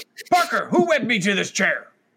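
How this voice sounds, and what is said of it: Grumbly gruff newspaper-editor character voice. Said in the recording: “Are you trying to do like a classic J. Jonas Jameson? ... That's a J. Jonas Jameson. ... Just any grumbly voice”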